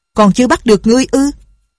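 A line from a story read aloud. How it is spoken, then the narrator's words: Frightened cry. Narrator (Vietnamese): Nhạc Linh Sang kinh hãi la lên một tiếng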